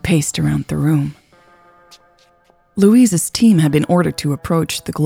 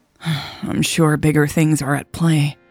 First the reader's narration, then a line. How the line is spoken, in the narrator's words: Louise sighed